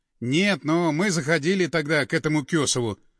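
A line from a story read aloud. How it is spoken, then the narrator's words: Calm reply. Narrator (Russian): спокойно ответил Андреев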